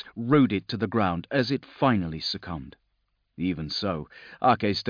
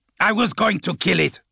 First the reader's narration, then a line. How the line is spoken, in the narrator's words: Ake growled